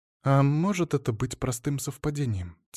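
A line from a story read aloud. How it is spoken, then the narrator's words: Quiet question. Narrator (Russian): тихо спросила Валентина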